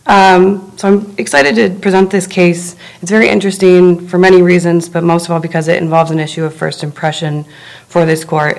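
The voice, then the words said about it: Hoarse, croaky voice. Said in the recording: “apologizing for my voice here. It's seasonal allergies ... I sound like a frog”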